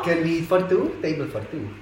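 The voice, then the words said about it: English with a put-on Italian accent. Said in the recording (Czech): “ty akcenty jsou vtipný ... líbí uh, eh, italský hrozně”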